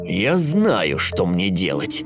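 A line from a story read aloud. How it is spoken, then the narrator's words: Malicious, grinning wolf. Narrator (Russian): злобно ухмыльнулся волк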